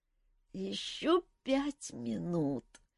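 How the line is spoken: Sleepy mumble. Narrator (Russian): сонно пробормотала Ольга

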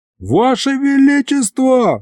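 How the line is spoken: Yelling. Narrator (Russian): заорал я

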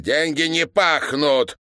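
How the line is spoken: Shout. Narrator (Russian): выкрикнул Иван Петрович

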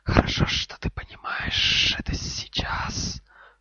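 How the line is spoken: Cold hiss. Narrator (Russian): холодно прошипела змея

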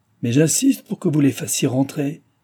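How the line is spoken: Furious exclamation. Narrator (French): s'écria-t-il paraissant furieux

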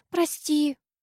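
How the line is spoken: Squeaking. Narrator (Russian): пискнула Ди

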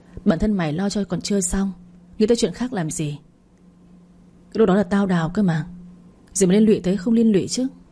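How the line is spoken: Cold, hiding emotion. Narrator (Vietnamese): Dũng Sẹo cảm thấy cay cay nơi sống mũi, nhưng gã vốn không quen biểu đạt cảm xúc ra bên ngoài, nên gã nói bằng giọng lạnh nhạt

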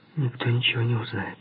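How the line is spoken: Calm. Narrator (Russian): спокойно сказала

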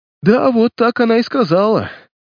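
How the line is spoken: Moaning. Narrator (Russian): простонал Патси

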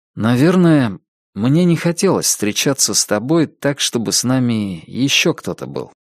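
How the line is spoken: Plain. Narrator (Russian): сказал он

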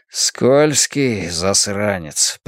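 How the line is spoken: Muttering. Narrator (Russian): пробормотал Хардвик

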